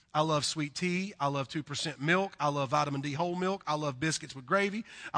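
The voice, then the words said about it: Southern US accent. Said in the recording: “I'm a southern boy. Um, you can probably tell by my accent. I am from the deep south”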